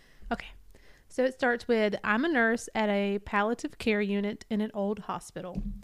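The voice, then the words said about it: Out of breath. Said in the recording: “if it sounds like I'm out of breath, I am”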